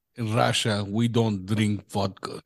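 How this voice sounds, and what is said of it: Put-on Russian accent. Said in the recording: “be like, Russian ... That was kind of good, though.”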